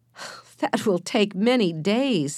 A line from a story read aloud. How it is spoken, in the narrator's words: said Henry, laughing